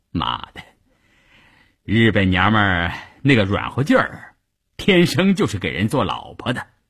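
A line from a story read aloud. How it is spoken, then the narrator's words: Laughing. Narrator (Chinese): 关山林……笑着对一旁的三五九旅副旅长谭之林说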